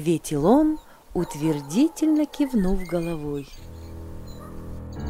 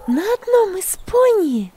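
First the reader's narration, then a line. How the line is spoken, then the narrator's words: Exclaiming. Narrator (Russian): воскликнула Магдалина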